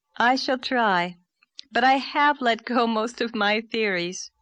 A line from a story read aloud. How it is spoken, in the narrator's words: said Anne, laughing a little